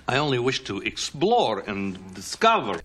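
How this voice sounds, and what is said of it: Bad generic Eastern European accent. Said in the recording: “he has a really generic, garbly European accent ... if it lands near Russia, that's about what his accent kind of sounds like ... a really bad accent”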